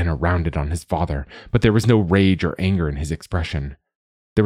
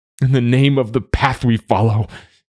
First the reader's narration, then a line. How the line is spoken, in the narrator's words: he sobbed